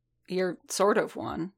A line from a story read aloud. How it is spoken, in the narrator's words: Din muttered